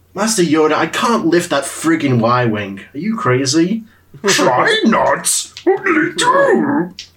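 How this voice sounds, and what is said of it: Yoda character voice impression. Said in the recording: “That was my impersonation of Yoda.”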